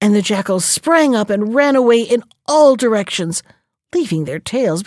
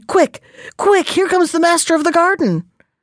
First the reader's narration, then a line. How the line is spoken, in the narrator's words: his ears caught the sound of breaking branches, and he cried